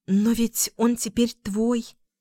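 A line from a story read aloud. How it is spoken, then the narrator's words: Quiet. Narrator (Russian): тихо проговорила Луна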